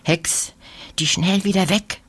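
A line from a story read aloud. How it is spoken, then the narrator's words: Whisper. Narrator (German): flüstert Lina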